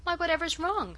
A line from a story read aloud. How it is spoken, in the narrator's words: cried mystified Mary